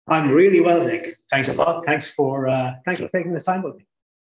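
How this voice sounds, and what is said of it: Irish accent. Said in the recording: “I'm sure listeners can hear from my accent. That's not where I'm from. Originally Irish”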